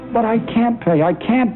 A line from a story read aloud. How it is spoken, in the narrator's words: the man gasped